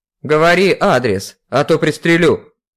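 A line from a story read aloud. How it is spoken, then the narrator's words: Barking. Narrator (Russian): Рявкнул Петров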